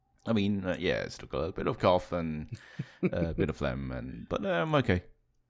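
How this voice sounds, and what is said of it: Deeper, raspy voice from a cold. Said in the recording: “his voice is a little bit deeper and raspier than usual”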